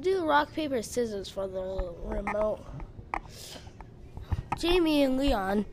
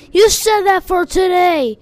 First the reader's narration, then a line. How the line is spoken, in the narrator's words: yelled Leon